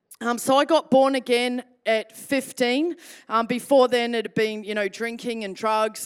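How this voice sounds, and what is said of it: New Zealand accent. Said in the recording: “if you're picking up a Kiwi accent ... you sound like an Australian”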